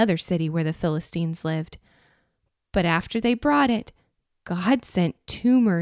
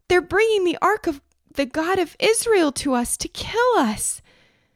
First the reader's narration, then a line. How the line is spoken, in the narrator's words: the people cried out